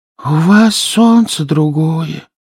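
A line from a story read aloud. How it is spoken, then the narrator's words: Breathed out, hedgehog. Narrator (Russian): выдохнул ежик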